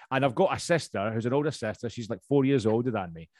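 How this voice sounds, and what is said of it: Strong Scottish accent. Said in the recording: “i am originally from Scotland, as you can tell. My accent's still pretty strong”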